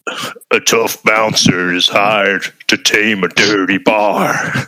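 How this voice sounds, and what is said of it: Sam Elliott impression. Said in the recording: “I want to hear Sam Elliott... Later Sam Elliott, but yeah, not bad.”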